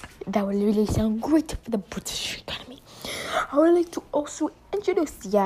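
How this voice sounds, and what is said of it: Usual voice. Nothing is said of it.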